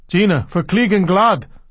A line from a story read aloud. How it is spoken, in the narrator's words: someone cried, alarmed